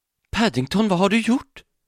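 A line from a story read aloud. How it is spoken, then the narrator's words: Horrified gasp. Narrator (Swedish): flämtade fru Brown förfärat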